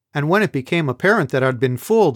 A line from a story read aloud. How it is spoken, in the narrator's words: continued, my voice rising